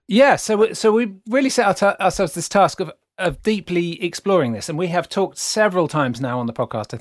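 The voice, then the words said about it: British accent. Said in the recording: “my beautiful British accent”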